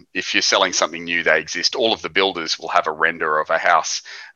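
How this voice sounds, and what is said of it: Australian accent. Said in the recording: “as you can tell by our accent and your accent, we're Australians.”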